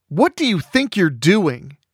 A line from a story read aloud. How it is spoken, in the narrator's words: Alan shouted at him